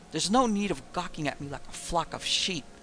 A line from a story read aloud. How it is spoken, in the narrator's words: he said irritably